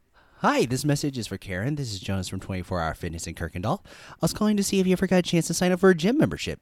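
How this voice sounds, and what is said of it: Polished customer-service phone voice. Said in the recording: “That's my phone voice... you sound so different on the phone... that's my white person voice”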